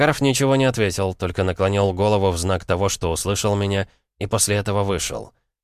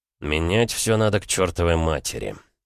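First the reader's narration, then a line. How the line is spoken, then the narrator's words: Mutter. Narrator (Russian): пробормотал я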